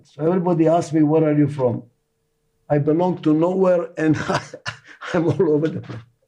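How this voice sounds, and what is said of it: Speaks with a foreign accent. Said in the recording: “In any language I speak, I have an accent.”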